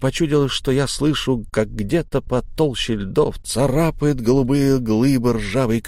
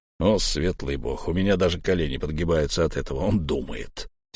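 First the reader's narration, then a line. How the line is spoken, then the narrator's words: Quiet snort. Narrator (Russian): тихо фыркнул Буран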